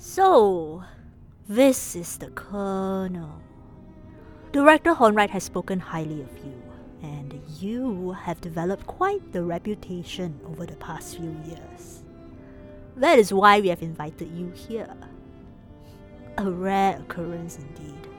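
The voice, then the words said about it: Decidedly Chinese accent. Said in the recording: “the woman in the middle spoke with a decidedly Chinese accent”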